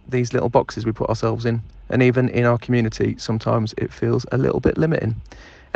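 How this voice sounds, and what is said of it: Attractive-sounding accented male voice. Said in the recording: “Sexy sounding ... Love that accent. Well done. I hope it's your own.”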